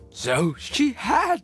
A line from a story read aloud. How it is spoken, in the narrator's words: cried Scrooge